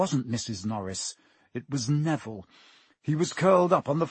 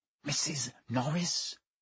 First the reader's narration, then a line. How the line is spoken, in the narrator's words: breathed Ron